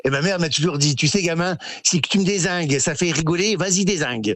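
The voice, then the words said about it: Northern French accent. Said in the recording (French): “l'accent du Nord, vous ne l'avez pas perdu ... vous êtes un petit peu un modèle avec cet accent du Nord”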